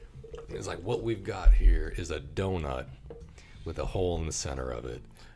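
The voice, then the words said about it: Exaggerated southern drawl. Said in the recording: “he says with this bullshit foghorn ... leghorn ... southern drawl”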